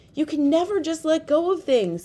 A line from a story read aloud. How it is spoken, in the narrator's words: Somkit shouted